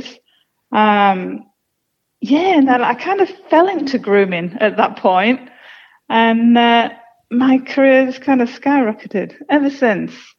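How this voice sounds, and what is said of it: British English accent. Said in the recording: “I'm originally from the UK. You can probably tell by the accent.”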